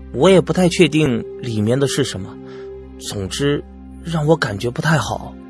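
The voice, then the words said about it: Speaking quietly, hushed voice. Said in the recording (Chinese): “小声的说”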